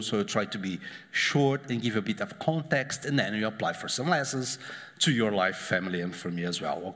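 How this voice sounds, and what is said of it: Spanish-accented English. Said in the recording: “coming from a guy with your accent makes just worse ... It's like my accent, Antonio Banderas. I'm not so rich or beautiful like him, but the same accent.”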